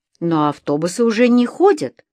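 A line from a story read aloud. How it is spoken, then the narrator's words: Young man exclaiming. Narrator (Russian): воскликнул молодой человек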